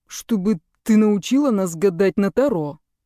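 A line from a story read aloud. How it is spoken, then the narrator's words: Through gritted teeth. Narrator (Russian): сквозь зубы проговорил папа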